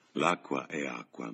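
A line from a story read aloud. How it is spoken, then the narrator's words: Murmured. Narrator (Italian): mormorò George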